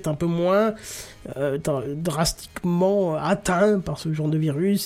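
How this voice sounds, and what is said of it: Speaks in a put-on accent. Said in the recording (French): “Je sais pas pourquoi je prends cet accent”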